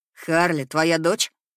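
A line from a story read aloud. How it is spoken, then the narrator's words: Rather rude. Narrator (Russian): как-то довольно грубо произносит Лиам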